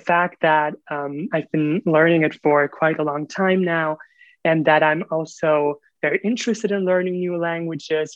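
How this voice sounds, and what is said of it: Pleasant non-native English accent. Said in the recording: “you have a very good level of English, very very pleasant, also very pleasant accent.”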